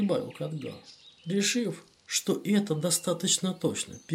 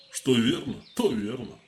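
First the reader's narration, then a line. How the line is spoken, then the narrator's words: Knight's grunt. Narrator (Russian): хмыкнул первый рыцарь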